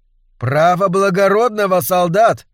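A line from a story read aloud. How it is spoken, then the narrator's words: Spectator shouting from behind fence. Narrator (Russian): крикнул какой-то зритель из-за ограды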